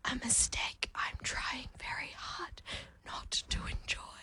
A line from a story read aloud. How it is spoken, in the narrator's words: he whispers